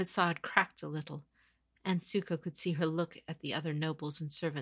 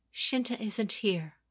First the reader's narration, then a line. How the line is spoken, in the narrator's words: the woman said carefully, her voice wavering and her delicate face struggling to maintain its careful composure